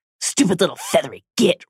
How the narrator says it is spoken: Ron hissed

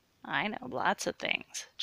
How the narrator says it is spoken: chuckled Sue

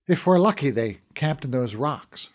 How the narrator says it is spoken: Fergal said

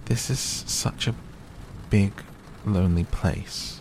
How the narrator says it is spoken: she said slowly, as if she were turning matters over in her mind

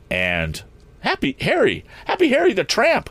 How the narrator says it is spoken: exclaimed Tom

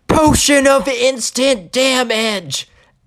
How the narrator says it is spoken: he screams

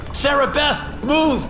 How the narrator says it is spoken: I yelled

